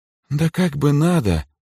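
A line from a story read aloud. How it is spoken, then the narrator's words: Agreeing with shaky sigh. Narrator (Russian): судорожно вздохнув, согласилась Даяна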